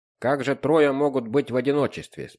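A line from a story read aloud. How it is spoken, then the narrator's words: Calm question. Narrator (Russian): спокойно спросил Вандервейн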